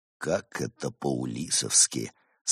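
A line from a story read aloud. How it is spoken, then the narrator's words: Sigh of mock sympathy. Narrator (Russian): с наигранным сочувствием вздохнул Барс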